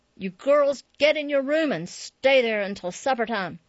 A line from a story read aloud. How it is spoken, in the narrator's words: she roared over her shoulder